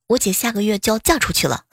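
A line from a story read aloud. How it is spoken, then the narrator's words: Young boy muttering. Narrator (Chinese): 还在读初中的小舅子啊就嘟囔道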